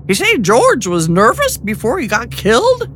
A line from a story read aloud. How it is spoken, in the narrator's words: Harold yelled